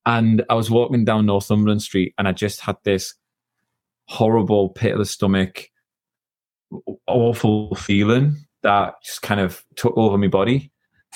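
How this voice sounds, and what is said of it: Northeast English accent. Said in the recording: “As you can tell from the accent, I'm from the northeast of England.”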